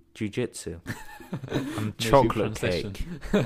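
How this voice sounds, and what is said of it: Usual voice. Nothing is said of it.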